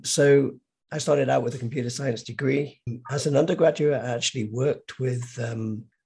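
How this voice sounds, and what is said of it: Hoarse, partly lost voice. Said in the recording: “excuse my voice. It's this time of year, I always kind of lose my voice for a few days, seasonal.”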